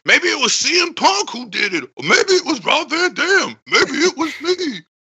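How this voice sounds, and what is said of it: Deliberately bad Taz impression. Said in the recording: “the best worst Taz impression ever”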